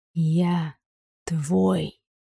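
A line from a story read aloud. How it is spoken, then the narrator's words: Barely audible velvety breath. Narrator (Russian): выдохнул еле слышно, бархатного голоса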